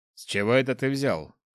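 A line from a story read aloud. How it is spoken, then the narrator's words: Snort. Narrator (Russian): хмыкнул староста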